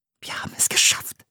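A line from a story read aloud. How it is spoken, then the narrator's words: Whispering. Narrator (German): flüsterte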